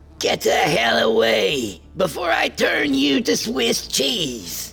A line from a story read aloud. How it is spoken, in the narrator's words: she hollered